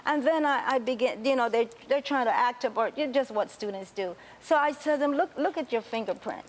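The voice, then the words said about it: Panamanian Spanish-accented English. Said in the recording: “Oh, you have an accent. I say, yes, I'm from Panama”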